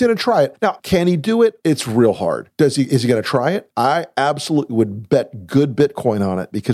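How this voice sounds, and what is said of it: Usual voice. Nothing is said of it.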